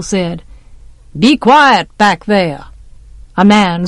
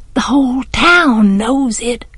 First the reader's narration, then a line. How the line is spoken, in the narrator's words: I breathed